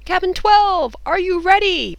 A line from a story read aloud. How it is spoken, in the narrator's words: he shouted, turning towards the field